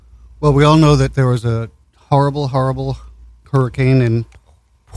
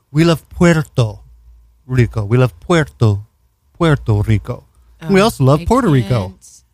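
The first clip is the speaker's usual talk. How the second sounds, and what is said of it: Mock Spanish accent. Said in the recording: “He did a really stupid Spanish accent.”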